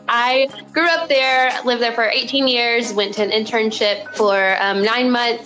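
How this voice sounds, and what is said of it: Arkansas accent. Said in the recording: “I was born and raised in a super tiny town um, called Morrilton in Arkansas. You'll definitely hear it in my accent.”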